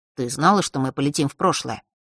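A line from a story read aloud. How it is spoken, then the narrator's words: Calm. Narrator (Russian): спросил он спокойным голосом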